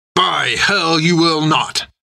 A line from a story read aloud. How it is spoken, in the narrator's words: snarled Jack